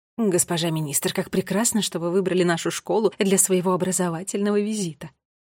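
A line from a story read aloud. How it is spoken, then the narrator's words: Reverent mutter. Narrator (Russian): Благоговейно пробормотал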